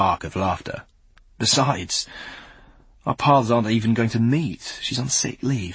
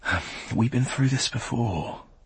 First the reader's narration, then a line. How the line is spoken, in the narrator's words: he sighs